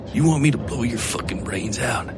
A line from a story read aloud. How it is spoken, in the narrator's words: Colt whispered